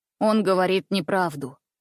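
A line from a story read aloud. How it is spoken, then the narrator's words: Calm and firm. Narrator (Russian): спокойно и твердо произнес Андрюша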